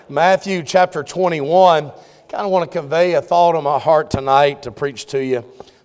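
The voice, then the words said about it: Southern US drawl. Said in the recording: “this foreign speech, you know, this Southern drawl. I don't realize how bad it is... they said, "You're from down south."... I guess I do”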